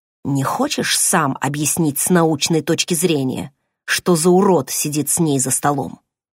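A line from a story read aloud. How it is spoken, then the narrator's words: Hissed. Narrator (Russian): прошипел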